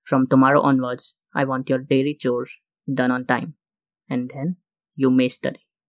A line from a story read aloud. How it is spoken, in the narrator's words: she said in a commanding tone